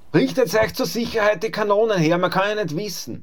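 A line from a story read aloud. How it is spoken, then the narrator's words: Calling out. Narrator (German): rief der Griesfranz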